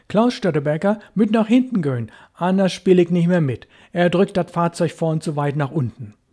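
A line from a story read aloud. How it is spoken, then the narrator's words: Joking call. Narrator (German): Kurt Külper aber, der Spaßige, rief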